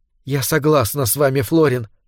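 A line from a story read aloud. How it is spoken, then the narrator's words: Whispered. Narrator (Russian): прошептала она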